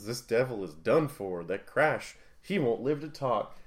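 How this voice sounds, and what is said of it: Vaguely southern drawl. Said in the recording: “a vaguely southern drawl”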